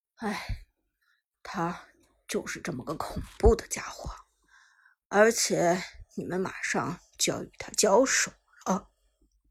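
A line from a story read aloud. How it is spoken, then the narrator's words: Low sighing voice. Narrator (Chinese): 韩小军 低声叹道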